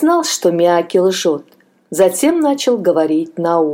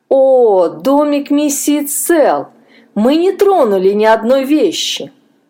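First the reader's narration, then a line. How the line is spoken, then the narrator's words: Bitter laugh. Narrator (Russian): Джон горько рассмеялся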